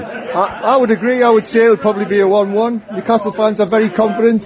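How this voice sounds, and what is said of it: Geordie accent. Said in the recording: “as you can tell from his accent, he's a Geordie”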